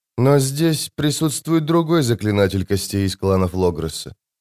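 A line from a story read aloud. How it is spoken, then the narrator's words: Flat, toneless. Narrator (Russian): произнесла она бесцветным тоном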